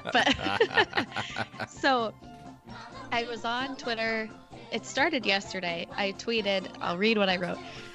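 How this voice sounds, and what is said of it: Congested, honking sick voice. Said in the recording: “I sound like a goose, but this cold just won't go away”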